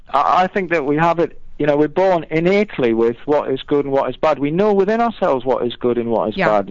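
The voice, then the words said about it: Northeast English accent. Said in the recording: “I just love your accent saying my name... I'm kind of from the northeast of England”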